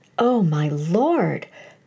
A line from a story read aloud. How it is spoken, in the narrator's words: cried Marjorie in desperation